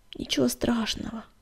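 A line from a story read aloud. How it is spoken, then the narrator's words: Groaning with strain. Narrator (Russian): простонал он, пытаясь подняться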